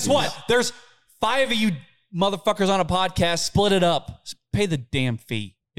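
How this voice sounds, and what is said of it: Yelling. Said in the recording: “I'm yelling at you”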